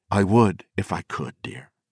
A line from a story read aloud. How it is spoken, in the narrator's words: he said gently